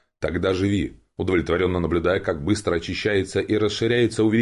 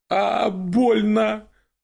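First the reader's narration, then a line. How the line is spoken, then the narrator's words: Woman wailing in pain. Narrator (Russian): Завопила собеседница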